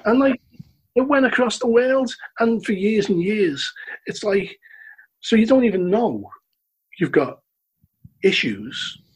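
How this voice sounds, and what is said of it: Liverpool accent. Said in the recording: “I love your accent. Where you from, Liverpool?”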